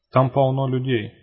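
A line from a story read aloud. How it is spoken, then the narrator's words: Skeptical snort. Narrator (Russian): хмыкнула Норрис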